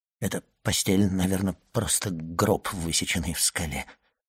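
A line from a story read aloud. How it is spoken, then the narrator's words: Whisper. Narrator (Russian): прошептал Данглар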